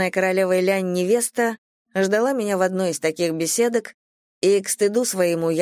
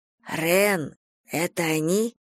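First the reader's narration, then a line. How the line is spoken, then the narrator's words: Whispered question. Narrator (Russian): шепотом уточнила я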